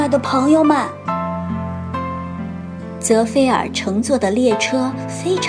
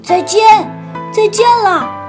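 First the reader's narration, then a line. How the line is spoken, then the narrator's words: Loud shouting. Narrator (Chinese): 小泽菲尔大声喊着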